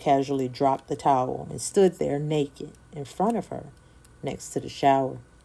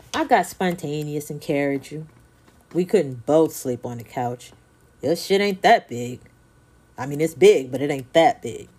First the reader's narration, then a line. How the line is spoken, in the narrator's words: answered, then busted out laughing